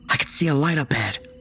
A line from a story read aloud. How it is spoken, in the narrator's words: Jackson whispered out